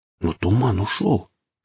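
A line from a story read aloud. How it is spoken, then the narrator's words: Vulture's whisper. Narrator (Russian): прошептал гриф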